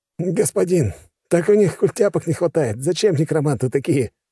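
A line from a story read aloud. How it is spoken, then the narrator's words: Chuckling. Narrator (Russian): хохотнул человек-обрубок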